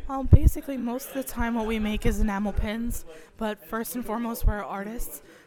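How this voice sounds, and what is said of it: Hoarse, strained voice. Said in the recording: “my horrible laryngitis voice ... I just lost it because I have a cold”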